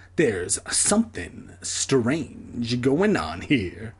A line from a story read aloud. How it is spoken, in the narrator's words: he murmured